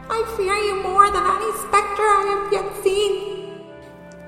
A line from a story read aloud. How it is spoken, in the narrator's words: Scrooge cried out